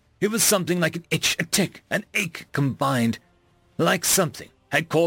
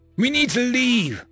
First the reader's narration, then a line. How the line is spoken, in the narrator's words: I yelled to myself